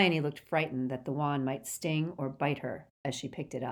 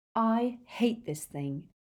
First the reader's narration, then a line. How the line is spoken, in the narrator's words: she said in a low voice